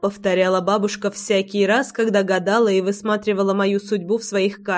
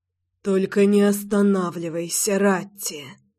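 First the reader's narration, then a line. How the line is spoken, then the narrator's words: Man's moaning plea-command. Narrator (Russian): Простонал мужчина свою просьбу-приказ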